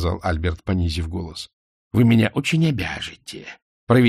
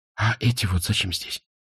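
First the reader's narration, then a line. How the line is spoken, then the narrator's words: Whisper. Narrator (Russian): прошептала Изабель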